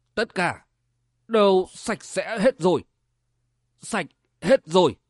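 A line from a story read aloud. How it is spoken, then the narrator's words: Muttering. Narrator (Vietnamese): Sở Vân lẩm bẩm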